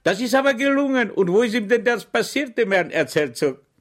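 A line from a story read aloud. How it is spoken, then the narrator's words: Cried out. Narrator (German): schrie Schweig auf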